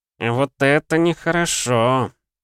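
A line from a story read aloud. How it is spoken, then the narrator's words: Mutter. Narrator (Russian): пробурчал Баке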